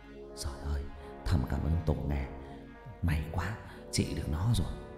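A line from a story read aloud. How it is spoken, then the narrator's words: Relieved old man muttering. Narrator (Vietnamese): Cụ Mỹ lẩm bẩm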